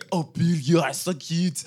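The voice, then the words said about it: Pretty good Fleur Delacour impression. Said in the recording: “It's a pretty good Fleur impression.”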